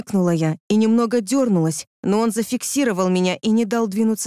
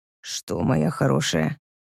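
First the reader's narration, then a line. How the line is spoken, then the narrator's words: Quiet reply. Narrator (Russian): тихо отозвался он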